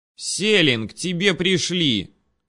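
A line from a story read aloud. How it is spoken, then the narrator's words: Girl calling into room. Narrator (Russian): крикнула девушка в комнату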